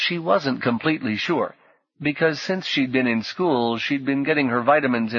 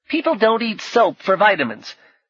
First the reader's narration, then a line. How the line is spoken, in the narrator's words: said indignantly